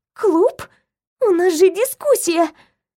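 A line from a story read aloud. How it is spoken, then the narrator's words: Weak vexed whimper. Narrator (Russian): От досады я скрипнула зубами и слабо заскулила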